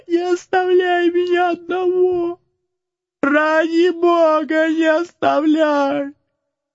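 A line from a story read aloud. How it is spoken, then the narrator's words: Desperate scream. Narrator (Russian): закричал отчаянным голосом Макс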